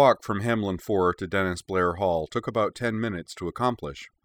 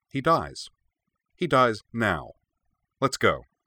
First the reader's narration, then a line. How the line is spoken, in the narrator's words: said flatly